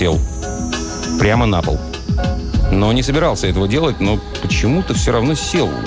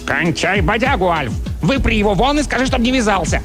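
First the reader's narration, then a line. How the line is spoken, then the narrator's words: Barking shout. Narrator (Russian): Чарли рявкнул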